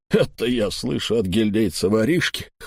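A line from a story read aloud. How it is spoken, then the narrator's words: Scoffing snort. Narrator (Russian): хмыкнул Эльм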